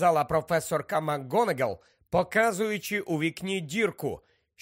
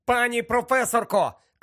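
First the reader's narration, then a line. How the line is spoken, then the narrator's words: Shouted. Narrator (Ukrainian): крикнув Гаррі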